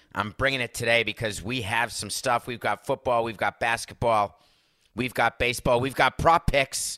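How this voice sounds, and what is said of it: Slightly tired voice. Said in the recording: “my voice is a little tired. But can you hear it?”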